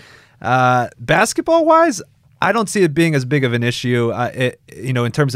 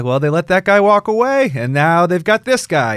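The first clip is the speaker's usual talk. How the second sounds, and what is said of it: Slight put-on New York accent. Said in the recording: “I even started to do a little New York impression there”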